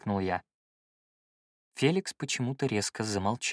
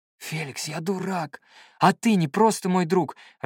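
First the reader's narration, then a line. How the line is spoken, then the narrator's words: Dazed breathless exhale. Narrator (Russian): ошалело выдохнул я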